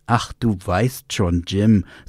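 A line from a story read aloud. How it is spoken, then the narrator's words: Plain. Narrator (German): sagte Mrs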